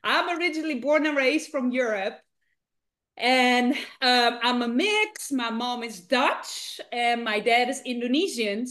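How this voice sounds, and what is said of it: Slight Dutch accent. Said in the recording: “born and raised in the Netherlands. So if you're thinking, she has a little bit of an accent”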